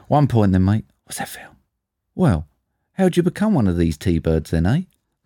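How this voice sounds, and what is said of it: Put-on British accent. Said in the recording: “I've got to do a British accent. Right. Hardest accent to do.”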